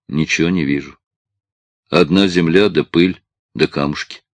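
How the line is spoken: Old man speaking. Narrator (Russian): Старик сказал

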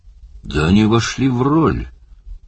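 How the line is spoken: Forced out. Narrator (Russian): выдавил из себя Барни

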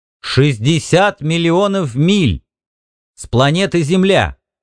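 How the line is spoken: Loud. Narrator (Russian): громко мистеру ААА

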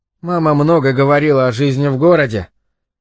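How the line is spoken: Sighing. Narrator (Russian): Генри вздохнул

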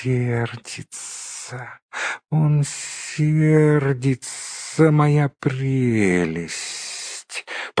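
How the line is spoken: Hissing. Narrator (Russian): прошипел Голлум

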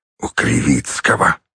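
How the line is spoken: Wheeze. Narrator (Russian): просипел он

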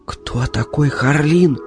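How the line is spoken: Whispered question. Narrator (Russian): шепотом спросила она

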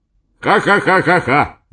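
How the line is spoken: Loud laughter. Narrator (Russian): громко засмеялся Эдисон Ксенофонтович

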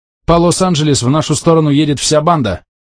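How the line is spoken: Shout. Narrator (Russian): крикнул он

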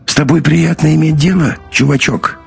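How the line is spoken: Hoarse. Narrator (Russian): хрипло произнес Бат

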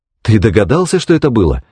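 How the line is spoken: Agitated, excited. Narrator (Russian): взволнованно проговорил Лерой

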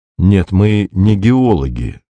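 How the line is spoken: Gentle objection. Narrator (Russian): мягко возразил Беркут

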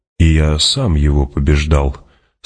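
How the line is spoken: Calm. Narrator (Russian): спокойно продолжил Стилгар

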